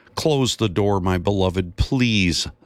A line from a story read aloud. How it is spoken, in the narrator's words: Zacchaeus' wife yelled in frustration